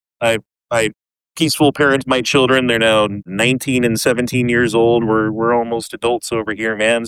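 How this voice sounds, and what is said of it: Strong Canadian-sounding accent. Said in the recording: “That is the most Canadian accent I've heard in about a while.”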